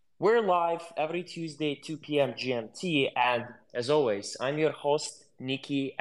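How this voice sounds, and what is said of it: European accent in English. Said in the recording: “with this European accent.”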